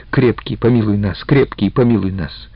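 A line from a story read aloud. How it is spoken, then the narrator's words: Frightened old woman, rapid. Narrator (Russian): старуха, очевидно, пугалась, обрывала молитву и только быстро говорила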